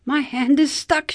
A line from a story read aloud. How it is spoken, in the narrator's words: cried